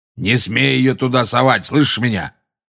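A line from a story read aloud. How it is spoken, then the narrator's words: Roared. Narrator (Russian): проревел Грюм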